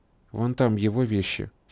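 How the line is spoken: Calm, casual. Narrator (Russian): совершенно спокойно показала она, небрежно бросив через плечо

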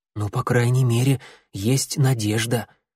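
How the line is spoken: Whisper in ear. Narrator (Russian): шепнул клубок на ухо огоньку

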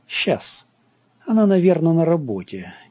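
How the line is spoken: Uncertain. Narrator (Russian): неуверенно сказал Санька

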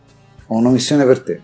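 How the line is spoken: Firm voice. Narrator (Italian): disse Shaltul con voce ferma

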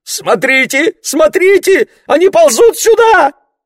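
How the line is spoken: Shrieked. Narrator (Russian): взвизгнула Марго

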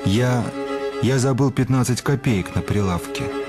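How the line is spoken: Muttering. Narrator (Russian): бормочет аптекарь, укрываясь одеялом

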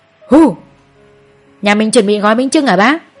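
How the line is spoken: Playful loud shout. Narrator (Vietnamese): Chú Đại nghịch ngợm hét to

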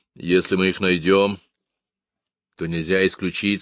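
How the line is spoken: Plain. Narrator (Russian): сказал

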